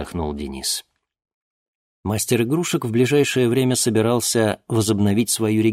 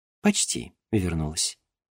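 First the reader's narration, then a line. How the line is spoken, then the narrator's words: Soft smiling. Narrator (Russian): мягко улыбнулась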